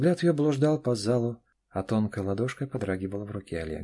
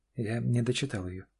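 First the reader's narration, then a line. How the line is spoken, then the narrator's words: Quiet. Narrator (Russian): негромко произнесла Аня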